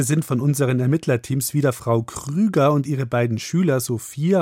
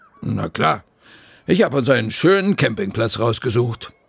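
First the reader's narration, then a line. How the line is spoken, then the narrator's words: Deep female voice. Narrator (German): antwortet Frau Krüger mit ihrer tiefen Stimme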